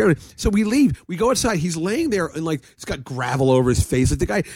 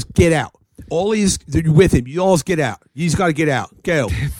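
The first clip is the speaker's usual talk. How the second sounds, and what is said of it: Put-on Philadelphia accent. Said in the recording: “Philly accent”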